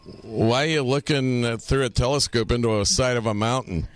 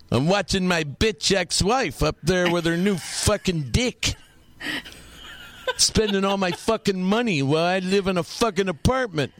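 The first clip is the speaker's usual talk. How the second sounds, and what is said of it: Imitates another person's voice. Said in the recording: “My imitation of him”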